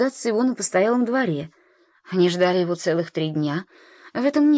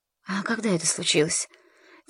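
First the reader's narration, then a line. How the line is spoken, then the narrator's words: Quiet question. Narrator (Russian): тихо спросила Сара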